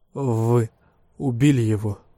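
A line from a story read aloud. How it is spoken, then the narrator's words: Strained. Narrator (Russian): выдавил из себя Мэрот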